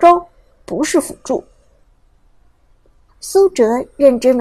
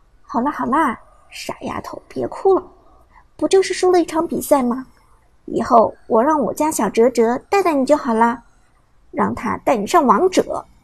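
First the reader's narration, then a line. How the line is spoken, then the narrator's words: Soft, gentle. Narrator (Chinese): 舞姿温柔的，柔声说道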